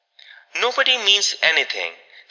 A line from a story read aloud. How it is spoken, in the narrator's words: said Caroline firmly